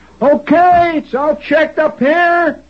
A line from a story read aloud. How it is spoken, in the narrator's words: somebody hollered out from the top of the radar set